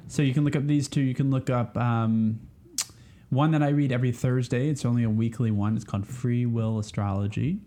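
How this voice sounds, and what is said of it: Southern American accent. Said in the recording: “have to say that carefully with your accent. Southern, it's hard to say.”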